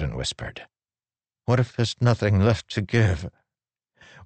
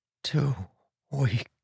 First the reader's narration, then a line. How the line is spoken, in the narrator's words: he whispered